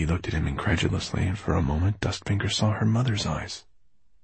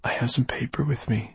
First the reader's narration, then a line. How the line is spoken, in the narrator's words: she whispered